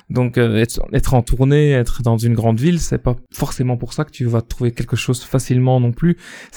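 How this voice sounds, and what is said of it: Belgian French accent. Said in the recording (French): “pour ceux qui n'auraient pas remarqué à mon accent, euh, je suis belge”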